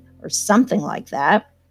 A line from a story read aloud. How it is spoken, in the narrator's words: snorted Tom contemptuously